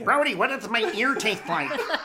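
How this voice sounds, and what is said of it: Cartoonish duck-like impression voice. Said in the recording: “My Richard Dreyfuss impersonation. It's a bit more Daffy Duck than Richard Dreyfuss as it comes out of my mouth”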